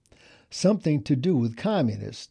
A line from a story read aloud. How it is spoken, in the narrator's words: Dad said